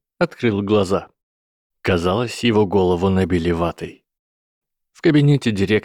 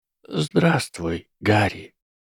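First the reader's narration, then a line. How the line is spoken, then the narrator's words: Quiet. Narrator (Russian): тихо сказал директор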